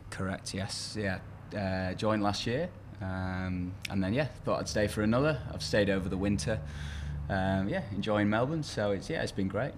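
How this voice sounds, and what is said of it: English accent. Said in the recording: “that's not an Australian accent ... One of our English imports”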